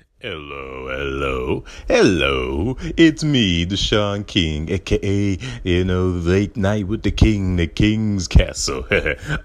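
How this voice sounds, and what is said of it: Deep cartoon devil voice. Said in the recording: “I have a deep voice. ... I was doing the dialogue there ... that red guy comes. He's like, "Hello, it's me, the devil. I stand for all that is bad."”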